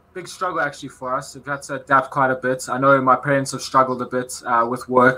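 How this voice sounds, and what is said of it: South African accent. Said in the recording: “is South African. The accent gives it away.”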